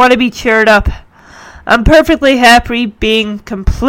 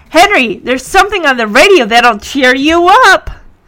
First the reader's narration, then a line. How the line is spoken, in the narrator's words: Punky tells Henry in a cheery tone